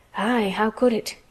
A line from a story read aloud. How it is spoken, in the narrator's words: he murmured